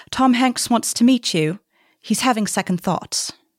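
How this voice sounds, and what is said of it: Put-on British accent. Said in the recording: “Should I do it in British accent?”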